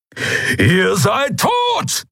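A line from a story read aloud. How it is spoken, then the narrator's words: Thundering. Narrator (German): donnerte Keru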